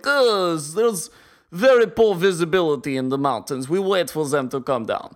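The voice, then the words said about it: Put-on Russian accent. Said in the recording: “It's a surprisingly good Russian accent.”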